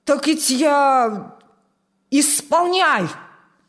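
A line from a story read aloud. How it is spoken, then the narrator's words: Commander's bark. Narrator (Russian): рявкнул командир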